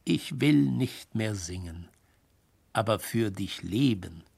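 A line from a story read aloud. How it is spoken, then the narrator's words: Gentle smiling voice. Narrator (German): sprach sie oft, sanft lächelnd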